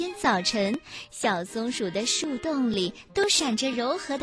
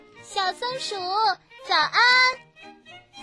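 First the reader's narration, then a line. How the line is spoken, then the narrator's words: Loud shout. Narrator (Chinese): 红树叶就朝洞里大声地喊着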